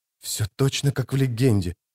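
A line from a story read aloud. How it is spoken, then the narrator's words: Whisper. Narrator (Russian): прошептал кто-то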